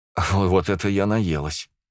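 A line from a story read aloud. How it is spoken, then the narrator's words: Satisfied exhale. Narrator (Russian): Выдохнула, наконец, насытившись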